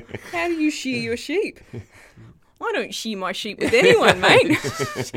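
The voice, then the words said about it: Put-on New Zealand accent. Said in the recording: “That's the Kiwi accent.”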